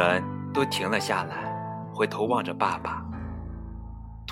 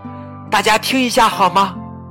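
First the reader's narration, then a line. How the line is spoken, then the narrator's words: Sudden loud call. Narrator (Chinese): 爸爸突然大声叫道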